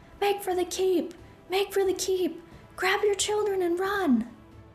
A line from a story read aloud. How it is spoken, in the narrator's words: Groups of guards shouted at villagers